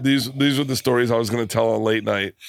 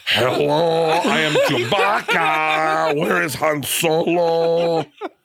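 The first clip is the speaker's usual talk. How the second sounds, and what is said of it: Chewbacca impression. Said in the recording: “can you do a Chewbacca impression?”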